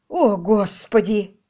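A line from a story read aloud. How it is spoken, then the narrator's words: Breathless exhale. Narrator (Russian): выдохнул герцог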